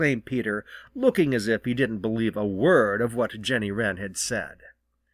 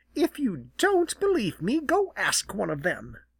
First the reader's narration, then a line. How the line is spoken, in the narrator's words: she snapped